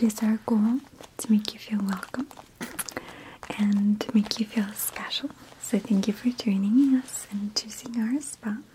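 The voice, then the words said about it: Soft whispering voice. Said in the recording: “Why is she whispering?”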